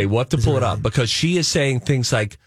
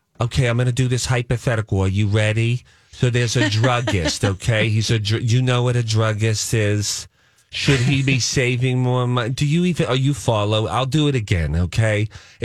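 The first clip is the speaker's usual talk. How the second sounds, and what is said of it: Imitates another person's thick accent. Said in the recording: “Donna's accent, Rocco, you wouldn't believe it ... It's really, really a thick accent.”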